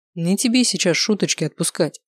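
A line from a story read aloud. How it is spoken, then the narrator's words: Plain. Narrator (Russian): ответил тренер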